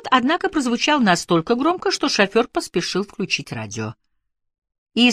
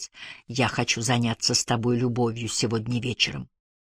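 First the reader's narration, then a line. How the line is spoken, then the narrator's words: Whisper. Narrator (Russian): прошептать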